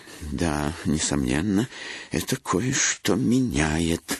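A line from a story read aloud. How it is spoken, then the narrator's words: Quiet. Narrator (Russian): негромко начал Бернард Блейк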